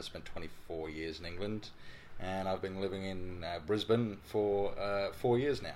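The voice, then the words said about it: English accent. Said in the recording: “If you can't tell by the accent, I'm from England.”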